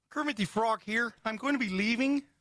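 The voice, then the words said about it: Kermit the Frog voice. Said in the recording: “It's my Kermit the Frog voice.”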